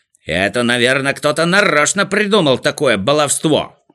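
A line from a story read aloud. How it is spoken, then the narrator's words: Shouting. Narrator (Russian): закричал Торопышка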